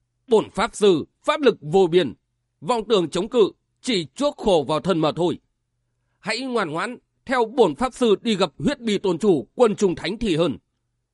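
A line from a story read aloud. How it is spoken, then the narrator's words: Loud laughing boast. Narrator (Vietnamese): Ba Đa Hồng cười to nói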